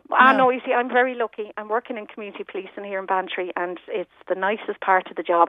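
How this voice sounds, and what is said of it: Mild, hard-to-place regional accent. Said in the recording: “You have a lovely accent ... It's not strong, so you can't pinpoint it.”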